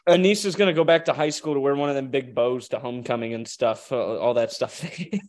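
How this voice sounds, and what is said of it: Southern American accent. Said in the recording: “She's going to start sounding like me, man... she's going to mix her Southern accent with the way she says water”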